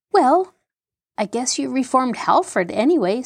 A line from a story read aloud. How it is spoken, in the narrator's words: said Jean cheerfully